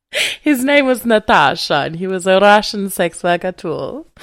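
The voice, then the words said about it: Good put-on Russian accent. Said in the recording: “It's a very good Russian accent there.”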